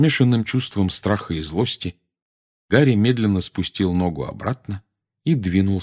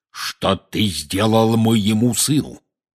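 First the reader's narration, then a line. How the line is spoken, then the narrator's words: Menacing growl. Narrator (Russian): грозно зарычал он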